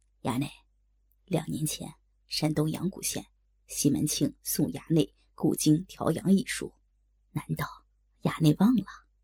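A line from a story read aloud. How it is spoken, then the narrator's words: Low whisper in ear. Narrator (Chinese): 贴耳低声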